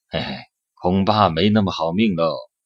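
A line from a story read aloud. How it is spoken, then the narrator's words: Sigh. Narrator (Chinese): 眯着长眼睛叹了一声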